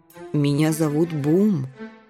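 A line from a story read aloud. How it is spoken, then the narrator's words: Soft, gentle. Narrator (Russian): мягко вставил сен-бернар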